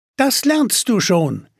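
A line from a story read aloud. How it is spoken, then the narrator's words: Called out. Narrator (German): rief eine 3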